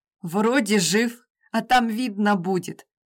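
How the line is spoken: Snorting. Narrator (Russian): фыркнул

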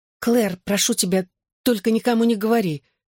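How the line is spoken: Frightened blurting. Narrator (Russian): испуганно выпалила я

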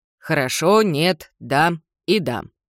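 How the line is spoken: Flat colorless voice. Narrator (Russian): отвечает Джардин невыразительным бесцветным голосом

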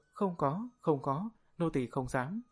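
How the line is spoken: Frightened hasty denial. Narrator (Vietnamese): Tư Đồ Phượng Vũ khẽ rùng mình một cái, vội vã, nói

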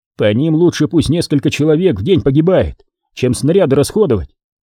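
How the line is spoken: Angry. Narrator (Russian): зло сказал Тищенко

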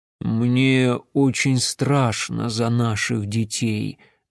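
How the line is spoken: Plain. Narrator (Russian): ответил Вяз

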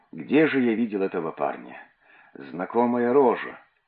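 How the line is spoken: Muttering to self. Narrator (Russian): Кто-то из верующих бормотал про себя

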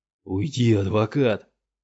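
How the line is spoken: Hoarse rasp. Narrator (Russian): прохрипел Юругу

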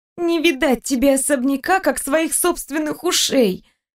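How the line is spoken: Groaning. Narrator (Russian): простонала я

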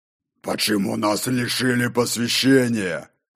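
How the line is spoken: Near growl, stocky man. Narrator (Russian): Почти прорычал мастер камней, рыжебородый и коренастый

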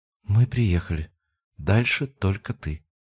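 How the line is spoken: Quiet. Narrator (Russian): тихо произнесла

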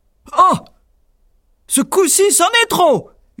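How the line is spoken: Giant yelling furiously. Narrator (French): hurla le géant

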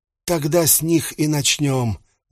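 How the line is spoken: Sighing, head of household. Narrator (Russian): вздохнул глава дома

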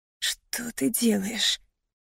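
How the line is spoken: Nervous rasp. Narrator (Russian): нервно прохрипела я

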